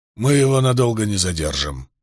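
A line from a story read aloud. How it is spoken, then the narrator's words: Hoarse wheeze. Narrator (Russian): прохрипел Вудворд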